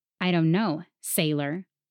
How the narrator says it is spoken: the worker spat

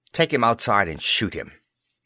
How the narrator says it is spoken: Watson snapped to the guards

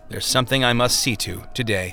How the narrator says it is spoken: said solemnly

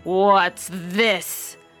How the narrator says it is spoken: growled the father bear in his great big voice

